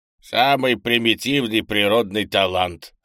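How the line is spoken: Old man's snort. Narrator (Russian): хмыкнул старый Лун

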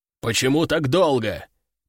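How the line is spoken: Growling commander. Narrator (Russian): прорычал их командир

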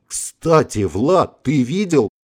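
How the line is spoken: Exclaiming. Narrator (Russian): воскликнул майор

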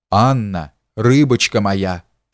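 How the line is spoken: Hoarse rasp. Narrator (Russian): прохрипел князь

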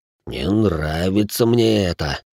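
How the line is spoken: Thoughtful drawl. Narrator (Russian): задумчиво протянул бывший лейтенант

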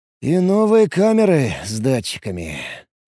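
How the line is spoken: Sighing. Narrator (Russian): вздохнул я

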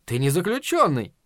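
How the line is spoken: Cheerful objection, spider. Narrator (Russian): весело возразил паук

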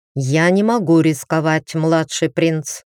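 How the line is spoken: Even-toned reply. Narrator (Russian): ровным тоном ответил наследник

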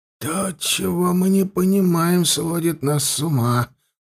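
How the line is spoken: Strained mutter. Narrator (Russian): пробормотал он, пытаясь взять себя в руки

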